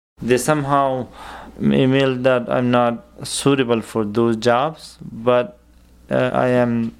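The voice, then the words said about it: Non-native English accent. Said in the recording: “considering my accent”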